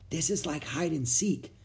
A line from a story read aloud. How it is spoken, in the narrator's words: she whispered